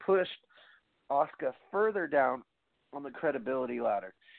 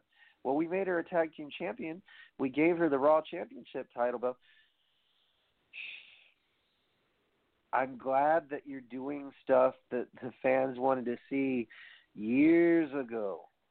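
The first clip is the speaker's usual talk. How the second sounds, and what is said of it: Sarcastic tone. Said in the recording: “the sarcasm in my fucking voice”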